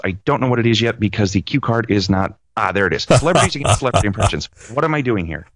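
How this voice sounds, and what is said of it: Higher, faster imitation of another person. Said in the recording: “Robert Downey Jr. pretty much just, you know, you talk higher and, you know, kind of faster”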